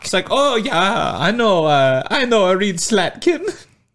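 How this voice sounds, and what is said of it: Bad fake Swiss accent. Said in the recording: “Some like terrible Swiss accent. That's not even Swiss... Sounds nothing like the cheese.”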